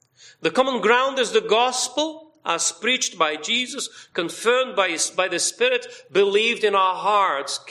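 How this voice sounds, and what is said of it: Speaks with a foreign accent. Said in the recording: “this foreign accent”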